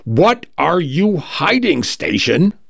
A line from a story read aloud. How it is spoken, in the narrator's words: shouts finally, voice cracking